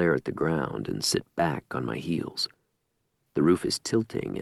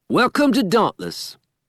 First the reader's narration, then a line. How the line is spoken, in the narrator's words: Amar shouts